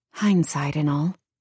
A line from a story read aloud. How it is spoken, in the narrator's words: muttered